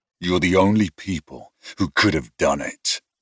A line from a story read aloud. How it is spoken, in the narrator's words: I growled